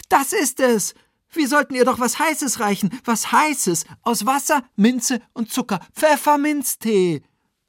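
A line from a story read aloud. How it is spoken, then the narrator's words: Shouting. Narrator (German): schrie Oliver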